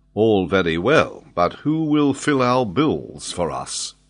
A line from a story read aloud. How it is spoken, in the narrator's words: said Glenarvan